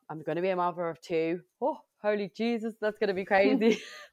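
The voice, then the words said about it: Strong Irish accent. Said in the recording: “I sounded very Irish then.”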